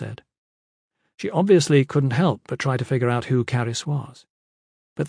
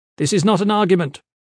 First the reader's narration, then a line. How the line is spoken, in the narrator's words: Caris said sharply